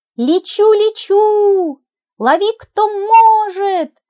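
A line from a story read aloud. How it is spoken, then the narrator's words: Woman shouting. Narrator (Russian): закричала она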